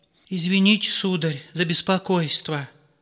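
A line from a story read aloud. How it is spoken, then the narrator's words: Pleading. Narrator (Russian): начал настройщик умоляющим голосом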